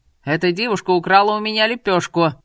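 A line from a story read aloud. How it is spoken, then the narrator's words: Shouting. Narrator (Russian): закричал торговец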